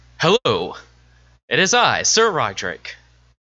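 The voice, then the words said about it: Knightly character voice. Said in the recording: “let me get my my voice ready ... how do you like this voice? ... Do I sound like a knight in shining armor?”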